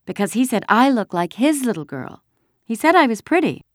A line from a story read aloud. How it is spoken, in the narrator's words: Kirsty announced happily